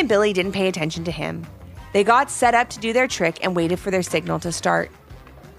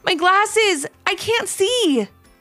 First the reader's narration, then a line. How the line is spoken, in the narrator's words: Liam called out